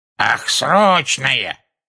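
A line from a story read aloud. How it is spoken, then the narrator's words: Shrill reply. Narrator (Russian): пронзительным голосом отозвалась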